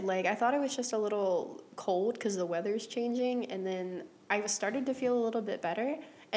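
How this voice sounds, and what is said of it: Congested, very deep sick voice. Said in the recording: “you sound like shit... you sound worse than you did... voice went down, like, 8 octaves... I'm still, like, kind of congested”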